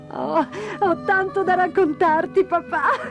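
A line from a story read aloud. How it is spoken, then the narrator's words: Laughing. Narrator (Italian): rise Dora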